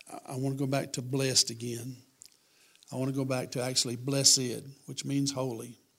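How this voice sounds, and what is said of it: Raspy, gravelly voice. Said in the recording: “You can tell how raspy I am ... since COVID ... it sounds like I've got a mouthful of gravel”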